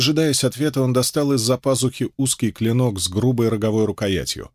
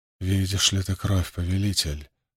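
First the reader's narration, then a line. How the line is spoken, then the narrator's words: Knowing whisper. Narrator (Russian): прошептал он, зная ответ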